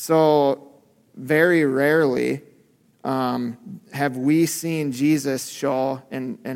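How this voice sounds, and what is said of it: Usual voice. Nothing is said of it.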